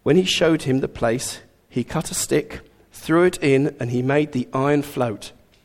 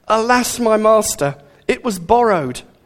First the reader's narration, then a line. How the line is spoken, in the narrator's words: he cried out